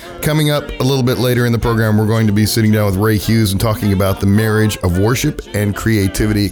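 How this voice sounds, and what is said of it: Sick-sounding voice. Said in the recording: “as the colder weather approaches, you can probably hear it in my voice. We're experiencing some weather-related health issues”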